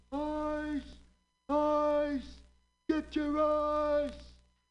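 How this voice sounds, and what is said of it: Yelling at the top of voice. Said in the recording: “He's yelling at the top of his voice. He's yelling,”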